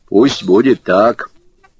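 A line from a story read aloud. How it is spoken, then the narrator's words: Solemn announcement. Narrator (Russian): торжественно объявил Василий Юрьевич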